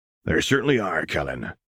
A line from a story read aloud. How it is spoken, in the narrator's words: chuckled Hagrid